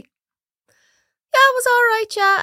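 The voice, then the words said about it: Imitates another person's voice. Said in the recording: “doing the voices”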